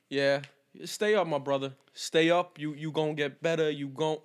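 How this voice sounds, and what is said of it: Put-on Black American vernacular voice. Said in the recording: “I don't know why I did a black voice... Why'd I do a black voice?”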